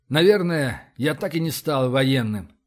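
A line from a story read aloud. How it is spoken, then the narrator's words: Bitter sigh. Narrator (Russian): горько вздохнул Рашин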